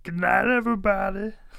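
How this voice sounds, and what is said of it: Put-on Louisiana accent. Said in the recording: “That's my Louisiana accent.”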